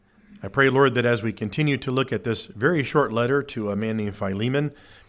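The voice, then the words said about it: Sick, strained voice. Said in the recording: “if you don't quite hear it in my voice, I do have a little bit of a funk going on. I've had it all week... I'm just trying to save my voice a little bit, but if I crack”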